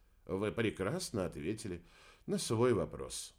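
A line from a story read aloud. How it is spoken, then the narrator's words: Sighing. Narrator (Russian): вздохнул Сан Саныч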